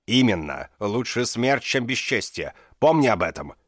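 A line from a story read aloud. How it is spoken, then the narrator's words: Thundering. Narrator (Russian): прогремел Друпад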